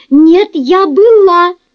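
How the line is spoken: Hysterical shriek. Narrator (Russian): Взвизгнула истерически Марси

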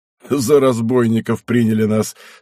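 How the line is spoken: Laughing. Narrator (Russian): смеясь сказал Зых

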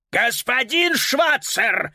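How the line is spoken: Furious roar. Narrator (Russian): взревел господин Шнитлих, окончательно потеряв самообладание

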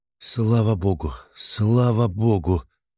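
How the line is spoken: Breathless hoarse repetition. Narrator (Russian): Павел Отлучный задыхался и хрипло повторял

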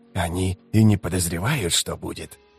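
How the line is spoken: Whisper. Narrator (Russian): прошептал Искарал Прыщ

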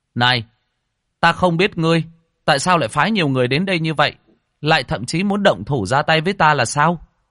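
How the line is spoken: Raised voice. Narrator (Vietnamese): Lâm Phàm cao giọng nói

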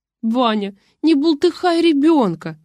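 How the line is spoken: Pleading. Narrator (Russian): взмолилась Рина

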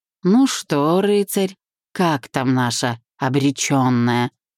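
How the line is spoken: Mocking singsong drawl. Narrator (Russian): Нараспев протянул бывший и, усмехнувшись

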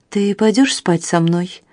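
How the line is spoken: Soft question. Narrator (Russian): спросила она мягко

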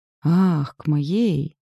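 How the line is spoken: Relieved exhale. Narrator (Russian): С облегчением выдохнула

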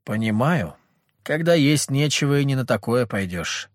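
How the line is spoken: Gloomy. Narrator (Russian): мрачно ответила Ангелина

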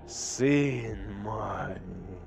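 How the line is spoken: Whisper. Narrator (Russian): прошептал Фулгрим

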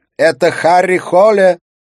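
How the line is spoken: Shout. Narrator (Russian): прокричала Катрина

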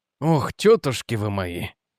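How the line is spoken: Muttered. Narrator (Russian): пробормотал он

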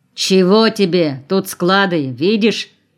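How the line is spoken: Stern shout, watchman. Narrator (Russian): строго выкрикнул сторож

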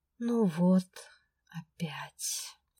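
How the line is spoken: Genuine sigh. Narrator (Russian): Неподдельно вздохнул он

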